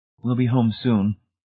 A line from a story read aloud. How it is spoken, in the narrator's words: Marcia said soothingly